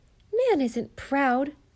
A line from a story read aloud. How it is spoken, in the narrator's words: cried Di with a flash of spirit